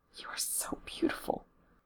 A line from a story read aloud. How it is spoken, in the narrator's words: Becky whispers